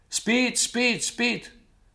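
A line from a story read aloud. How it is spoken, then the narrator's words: Shouting. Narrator (Russian): кричал американец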